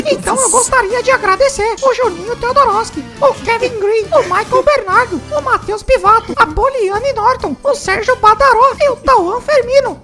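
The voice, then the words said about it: Mickey Mouse cartoon voice. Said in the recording (Portuguese): “Hoje quem vai homenagear as pessoas é o Mickey Mouse ... foi ótima a imitação”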